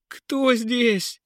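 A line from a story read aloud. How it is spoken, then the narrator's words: Terrified scream. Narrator (Russian): завопил от страха принц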